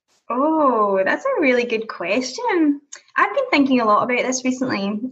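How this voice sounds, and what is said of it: Scottish accent. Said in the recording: “obviously, you are Scottish, all right, and that beautiful accent of yours”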